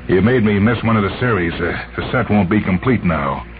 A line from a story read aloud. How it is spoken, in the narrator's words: He said bitterly